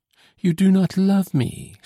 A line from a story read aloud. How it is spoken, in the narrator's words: she exclaimed